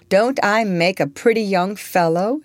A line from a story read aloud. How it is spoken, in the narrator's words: she said to George, laughing and blushing at the same time